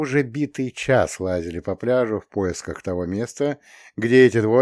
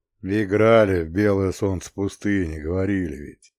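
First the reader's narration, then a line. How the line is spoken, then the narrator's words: Gloomy reply. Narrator (Russian): мрачно ответил Ряскин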